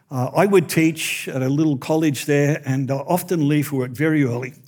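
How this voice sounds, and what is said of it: Australian-sounding accent. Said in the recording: “as you can probably tell from the accent, we lived in Australia.”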